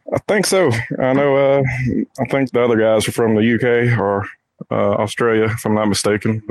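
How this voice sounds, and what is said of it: Southern US accent. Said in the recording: “I'm guessing from your accent, you're in southern United States?”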